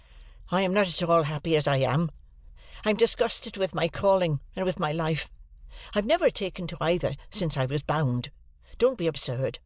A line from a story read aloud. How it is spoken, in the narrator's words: I exclaimed impatiently